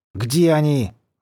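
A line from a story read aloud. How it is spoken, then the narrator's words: Angry growl. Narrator (Russian): злобно прорычал Рудин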